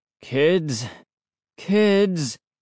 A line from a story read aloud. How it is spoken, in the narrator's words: he moaned